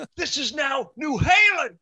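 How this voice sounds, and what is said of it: Imitates another person's voice. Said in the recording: “That's a pretty good Sammy impression there.”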